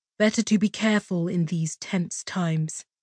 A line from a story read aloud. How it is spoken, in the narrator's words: Kalia added softly